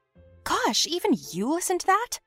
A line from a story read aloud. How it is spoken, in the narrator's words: I asked the nerd indignantly